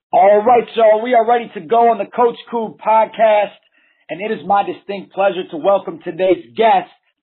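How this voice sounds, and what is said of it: Hoarse, strained voice. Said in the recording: “I lost my voice coaching this morning, so um, hang with me.”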